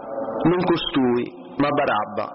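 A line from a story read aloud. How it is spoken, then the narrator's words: Crowd shouting again. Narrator (Italian): Allora essi gridarono di nuovo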